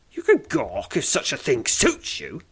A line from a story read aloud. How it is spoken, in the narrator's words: she snaps